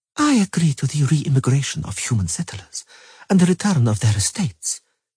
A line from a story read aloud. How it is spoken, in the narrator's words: she said gravely